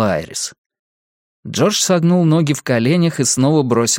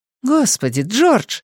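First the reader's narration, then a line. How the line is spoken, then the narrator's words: Exclamation. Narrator (Russian): воскликнул Калиша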